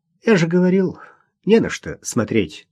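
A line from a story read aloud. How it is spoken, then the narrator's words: Sighing. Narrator (Russian): вздохнул Игорь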